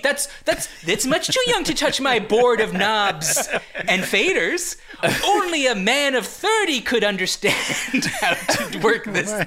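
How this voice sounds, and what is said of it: Impression of a co-host's voice. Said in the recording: “That's exactly how you sound... That was a great impression.”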